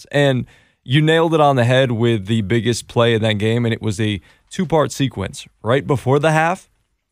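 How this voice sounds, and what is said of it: Worn voice lacking usual gusto. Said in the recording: “my voice is a little bit not what it usually is. Hopefully by later it'll have the gusto that it normally does, but I was yelling and screaming, I think, at the top of my lungs”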